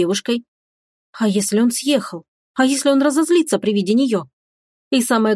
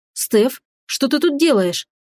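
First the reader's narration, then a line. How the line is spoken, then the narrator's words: Exclaimed. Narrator (Russian): воскликнул он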